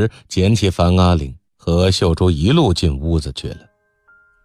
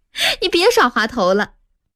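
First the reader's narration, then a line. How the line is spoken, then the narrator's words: Laughing. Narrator (Chinese): 玉芬笑道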